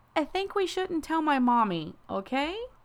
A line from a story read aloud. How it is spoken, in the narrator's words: I laughed